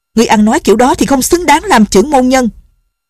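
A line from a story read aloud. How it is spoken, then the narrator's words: Shouted. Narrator (Vietnamese): Ngọc Cơ tử quát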